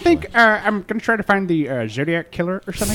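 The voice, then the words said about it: Imitates another person's voice. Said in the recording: “I love your impression. ... That's really good.”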